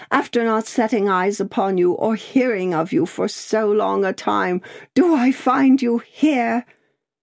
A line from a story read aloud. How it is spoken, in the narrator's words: cried Miss Pross